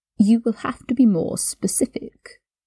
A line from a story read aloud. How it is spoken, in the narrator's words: Draco purred